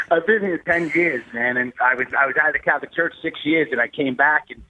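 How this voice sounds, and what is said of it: New York accent. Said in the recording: “that New York accent? ... 10 years and none of the accent has changed.”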